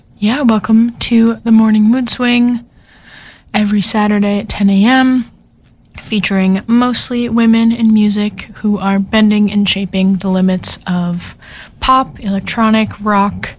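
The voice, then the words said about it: Voice weakened by sickness. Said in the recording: “overcoming a bit of a sickness... my radio voice might not be up to the par that it usually is”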